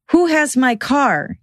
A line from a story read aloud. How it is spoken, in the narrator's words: he yelled, realizing that someone was stealing it